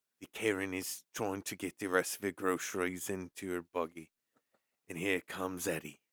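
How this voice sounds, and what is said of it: Australian accent, Steve Irwin-style narration. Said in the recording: “you got to put an Australian fucking accent to it or something. Steve Irwin”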